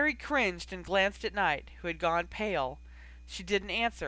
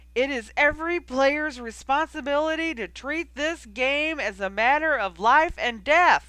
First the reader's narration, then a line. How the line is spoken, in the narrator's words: he shouted, going red in the face